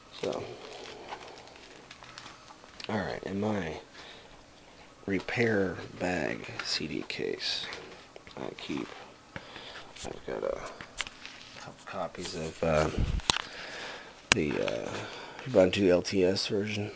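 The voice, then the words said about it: Whispering. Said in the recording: “In case anybody's wondering why I'm whispering, it is about 5 a.m.”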